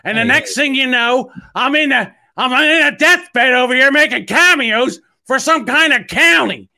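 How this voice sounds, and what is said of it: Imitates another person's voice. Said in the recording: “I was doing Gilbert Gottfried.”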